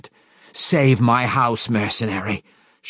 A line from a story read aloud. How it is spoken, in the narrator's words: she growled